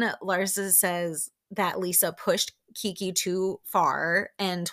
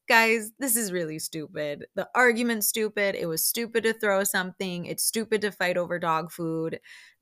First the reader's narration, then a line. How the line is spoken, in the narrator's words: Nicole laughs and says